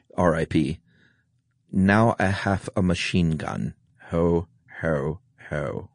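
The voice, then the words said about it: German-accented movie villain voice. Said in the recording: “say it in a German accent, please ... I'll say it with my best Alan Rickman”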